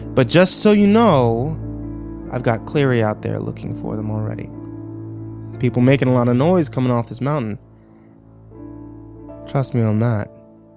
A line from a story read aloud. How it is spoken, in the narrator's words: Jimmy sighed